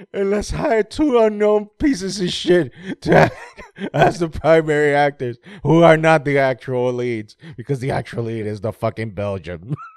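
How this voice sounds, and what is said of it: Imitates another person's voice. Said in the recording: “my Vince McMahon voice”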